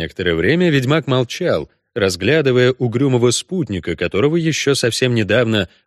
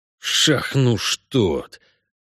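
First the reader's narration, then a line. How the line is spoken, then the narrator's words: Cursing through teeth. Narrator (Russian): выругался ведьмак сквозь зубы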